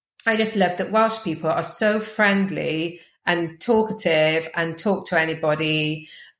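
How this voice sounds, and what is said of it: Fast-talking Welsh accent. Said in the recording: “I talk quickly of course and, um, and I have got a Welsh accent which not many people are used to that accent”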